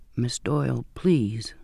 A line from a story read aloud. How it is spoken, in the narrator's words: he said softly